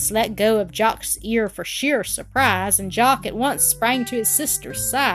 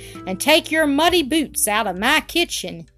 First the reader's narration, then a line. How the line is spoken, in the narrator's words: she shouted